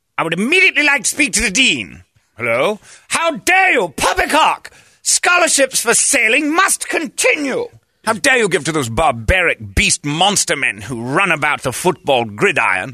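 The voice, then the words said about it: Pretentious put-on British accent. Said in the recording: “He's so pretentious, he's British now. ... I've even gotten an accent! That I learned at accent school.”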